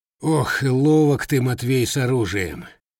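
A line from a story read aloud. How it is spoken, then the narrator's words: Grumbling. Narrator (Russian): проворчал десятник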